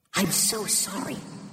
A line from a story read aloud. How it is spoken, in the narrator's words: she whispered to her dear friend